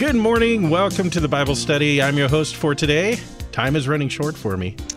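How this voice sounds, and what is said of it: Usual voice. Nothing is said of it.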